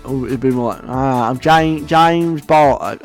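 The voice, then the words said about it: Put-on Essex accent. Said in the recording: “I'm going to stop trying to do an Essex accent now”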